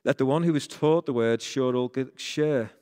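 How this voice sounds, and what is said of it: Rainhill regional English accent. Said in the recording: “That's my Rainhill accent again.”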